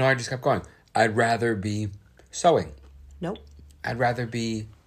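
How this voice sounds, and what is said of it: Usual voice. Nothing is said of it.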